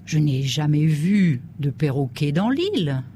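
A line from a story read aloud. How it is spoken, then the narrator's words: Plain. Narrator (French): dit Robinson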